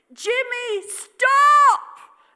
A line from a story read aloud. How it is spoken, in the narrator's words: Aretha shouted